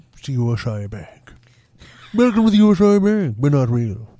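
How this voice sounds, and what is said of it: Put-on posh English accent, like Mr. Howell. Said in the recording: “You have to stick out your chin that far to do an English accent? ... It rather sounds like the rich guy on ... It sounds like Mr. Howell.”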